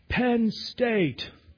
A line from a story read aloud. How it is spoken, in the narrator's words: the other side would scream out